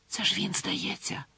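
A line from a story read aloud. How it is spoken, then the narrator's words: Whisper. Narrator (Ukrainian): зашепотіла вона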